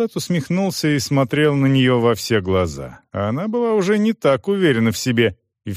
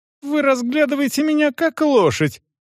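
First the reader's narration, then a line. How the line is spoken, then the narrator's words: Girl's shrill squeal. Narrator (Russian): взвизгнула девушка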